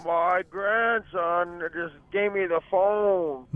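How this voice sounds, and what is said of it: Old man's voice. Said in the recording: “that was actually a pretty good grandpa voice.”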